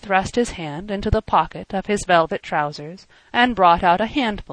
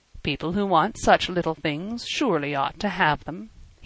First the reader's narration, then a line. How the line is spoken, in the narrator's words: he said dryly